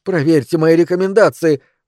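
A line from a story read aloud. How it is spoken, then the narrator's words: Pleading. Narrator (Russian): взмолился Джерри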